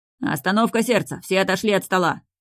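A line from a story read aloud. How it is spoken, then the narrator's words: Bark. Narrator (Russian): гаркнул Шахов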